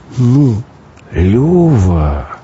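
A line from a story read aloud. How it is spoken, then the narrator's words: Drawn-out reproach. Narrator (Russian): коризненно протянул тот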